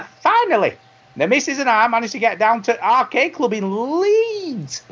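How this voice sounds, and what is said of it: Usual voice. Nothing is said of it.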